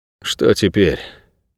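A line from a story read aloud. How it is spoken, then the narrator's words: Weary question. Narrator (Russian): устало спросил Найред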